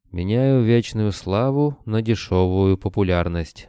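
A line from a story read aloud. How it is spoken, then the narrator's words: Gloomy quoting. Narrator (Russian): мрачно процитировал Кобылин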